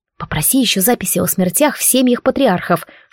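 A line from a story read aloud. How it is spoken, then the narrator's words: Whispered. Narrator (Russian): шепнула я парню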